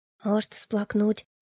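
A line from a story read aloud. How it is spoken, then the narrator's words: Girl's thoughtful whisper. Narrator (Russian): задумчиво произнесла девчонка шепотом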